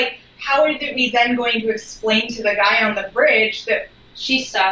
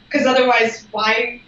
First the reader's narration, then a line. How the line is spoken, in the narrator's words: She sighs